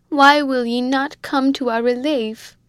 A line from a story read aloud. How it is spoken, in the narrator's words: she cried at the top of her voice